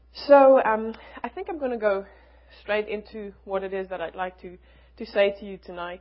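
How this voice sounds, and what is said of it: Strong foreign accent. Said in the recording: “the accent is sometimes hard to follow”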